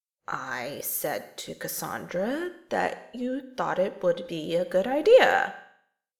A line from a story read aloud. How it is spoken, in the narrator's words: Terry said slowly